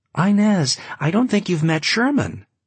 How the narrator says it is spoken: she forced her voice into an exclamation in order to be heard above the hive

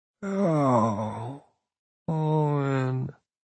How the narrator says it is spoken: he says, though his voice is slow and slurred

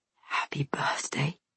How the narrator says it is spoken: he whispers

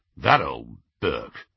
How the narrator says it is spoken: muttered Aberforth

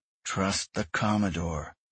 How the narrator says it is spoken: Grayson muttered

